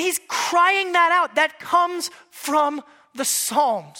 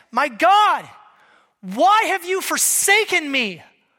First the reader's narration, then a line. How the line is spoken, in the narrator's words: Jesus cried out